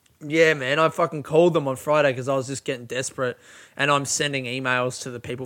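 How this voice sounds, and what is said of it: Usual voice. Nothing is said of it.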